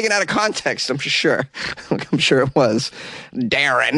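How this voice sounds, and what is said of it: Usual voice. Nothing is said of it.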